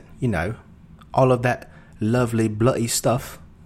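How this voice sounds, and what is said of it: Put-on British accent. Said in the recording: “a little bit of that British accent”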